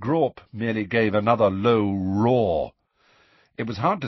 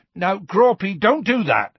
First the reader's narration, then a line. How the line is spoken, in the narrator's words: shouted Hagrid